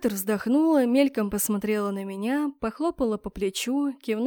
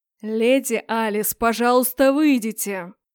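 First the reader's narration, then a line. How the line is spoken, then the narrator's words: Growling dark lord. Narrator (Russian): прорычал темный лорд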